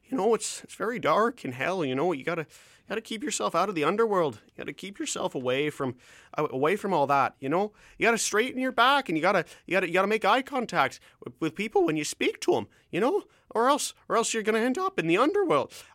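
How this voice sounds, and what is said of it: Canadian Kermit-the-Frog-like voice impression. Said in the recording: “he sounds something like Canadian Kermit the Frog. I'm going to give an impression a try here”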